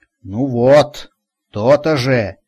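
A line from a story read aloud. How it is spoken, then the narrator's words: Pleased grumble. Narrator (Russian): довольно проворчала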